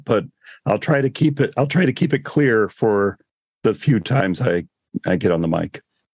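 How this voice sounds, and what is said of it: Hoarse, nearly lost voice. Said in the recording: “my voice is kind of gone right now”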